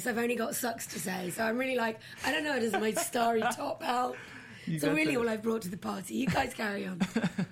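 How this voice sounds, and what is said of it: Hoarse, nearly lost voice. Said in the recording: “I've lost my voice.”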